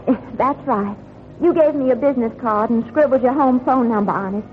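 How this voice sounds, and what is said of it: Southern American accent. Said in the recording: “You had a southern accent. You still have it.”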